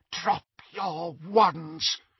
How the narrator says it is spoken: she whispered

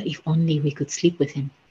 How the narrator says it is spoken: the young men whispered to each other

